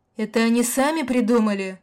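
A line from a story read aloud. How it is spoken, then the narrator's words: Indignant yelling. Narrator (Russian): вопил снайпер возмущенно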